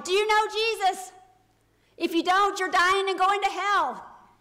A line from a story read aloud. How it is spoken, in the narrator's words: he would shout to everybody that passed by